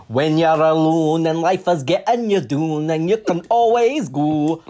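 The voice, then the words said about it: Singing in a put-on Scottish accent. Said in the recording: “sing this in a Scottish accent”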